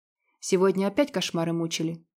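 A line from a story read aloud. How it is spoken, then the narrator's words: Quiet clarification. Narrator (Russian): негромко уточнил Вит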